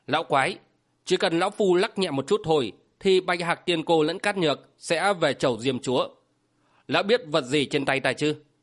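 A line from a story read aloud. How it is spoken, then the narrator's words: Menacing, through gritted teeth. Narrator (Vietnamese): gằn giọng nói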